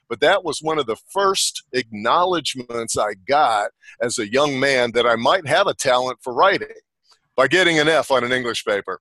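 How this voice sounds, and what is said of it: Atlanta, Georgia Southern accent. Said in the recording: “I love Atlanta, Georgia. I love the accent people coming from there ... I love the way you talk. I love your accent.”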